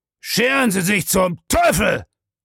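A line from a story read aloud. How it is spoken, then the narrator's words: Loud roaring. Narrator (German): brüllte laut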